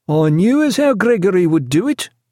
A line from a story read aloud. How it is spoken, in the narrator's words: cried Killick, a look of triumphant happiness on his face